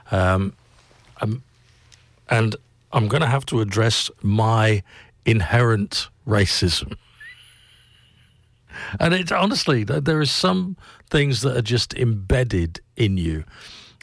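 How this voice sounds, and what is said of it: English accent. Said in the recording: “I know I sound like an Englishman”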